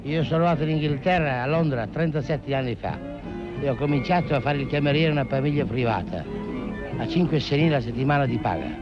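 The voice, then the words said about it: Romagna regional Italian accent. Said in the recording (Italian): “Scusi, di dov'è lei? ... Lugo di Romagna ... Mi pareva dall'accento.”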